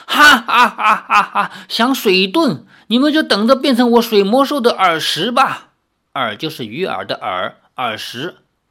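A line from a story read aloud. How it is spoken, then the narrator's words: Laughing. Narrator (Chinese): 拜月教主笑道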